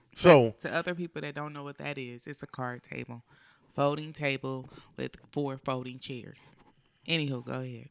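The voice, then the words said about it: Hoarse, groggy voice. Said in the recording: “I am a little hoarse because I have something ... if I sound a little groggy”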